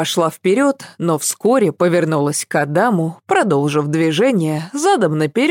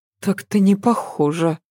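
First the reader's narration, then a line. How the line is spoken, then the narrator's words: Muttered. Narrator (Russian): пробормотала Ася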